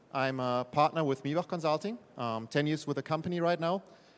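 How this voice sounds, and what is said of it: German accent. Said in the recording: “I'm actually German myself, so if my uh, accent hasn't been telling”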